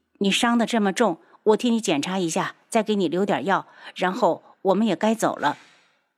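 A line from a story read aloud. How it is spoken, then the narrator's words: Sighing. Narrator (Chinese): 他叹了口气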